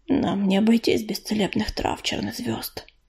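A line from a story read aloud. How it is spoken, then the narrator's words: Quiet, sudden. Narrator (Russian): перышко вдруг тихо сказал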